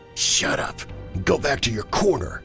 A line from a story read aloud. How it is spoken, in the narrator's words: Andrew hissed